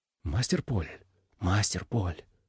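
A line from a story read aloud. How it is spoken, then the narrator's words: Whispering. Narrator (Russian): зашептал он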